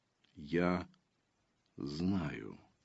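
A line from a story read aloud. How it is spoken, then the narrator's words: Quiet objection. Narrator (Russian): тихо возразил Дар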